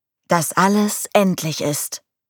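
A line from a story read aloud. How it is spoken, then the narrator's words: Plain. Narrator (German): sagte der Pfarrer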